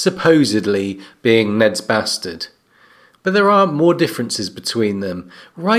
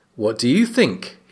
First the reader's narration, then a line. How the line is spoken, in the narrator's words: his father asked